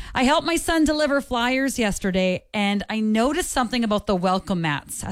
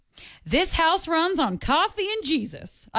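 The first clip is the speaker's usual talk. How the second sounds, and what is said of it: Put-on Southern American accent. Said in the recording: “I feel like that one needs to be said in a Southern accent, so I did my best.”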